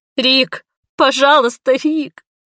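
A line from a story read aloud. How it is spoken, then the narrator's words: Loud sobbing. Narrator (Russian): Я зарыдала в голос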